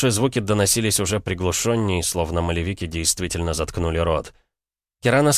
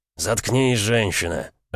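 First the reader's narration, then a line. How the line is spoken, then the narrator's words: Growl, familiar voice. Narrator (Russian): рыкнул такой знакомый голос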